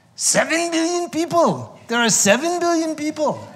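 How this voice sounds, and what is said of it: Inaccurate Dalai Lama accent impression. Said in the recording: “That's not his accent, by the way. I just want you to know. Not even close.”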